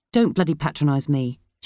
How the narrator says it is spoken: she snapped

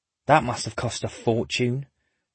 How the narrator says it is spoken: Hannah murmurs

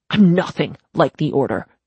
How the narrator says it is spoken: Dolph snapped

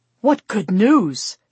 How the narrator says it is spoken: Stuart exclaimed

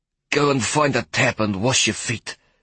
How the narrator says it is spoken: she panted

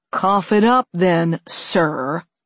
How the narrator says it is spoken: the first man said, giving him the appellation with a sneer

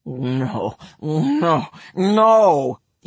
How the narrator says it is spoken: he forbade her, although his voice was glutinous with tumescence

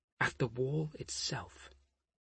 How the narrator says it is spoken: she muttered

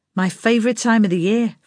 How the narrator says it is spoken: Frank said

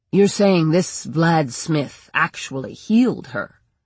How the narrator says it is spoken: Barth asked

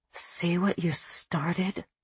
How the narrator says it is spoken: Mimi said to Ginger under her breath

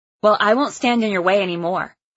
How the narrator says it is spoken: I snapped

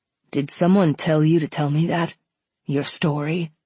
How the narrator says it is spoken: His voice was even and steady, but all the casual and playful banter almost seemed to disappear

